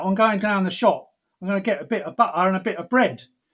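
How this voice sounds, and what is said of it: Put-on Cockney accent. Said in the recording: “all my mother's side, they're all Cockneys ... so they talk like that ... They talk like that.”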